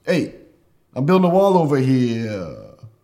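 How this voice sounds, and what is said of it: Imitates another person's voice. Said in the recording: “How's your Trump impression?”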